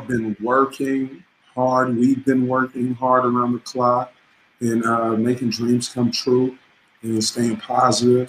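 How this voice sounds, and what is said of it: Slightly hoarse voice. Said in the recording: “my voice a little bit hoarse right now.”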